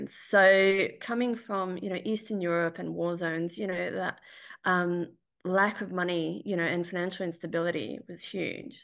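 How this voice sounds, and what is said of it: Australian accent. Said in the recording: “despite my accent, is I wasn't born or raised in Australia”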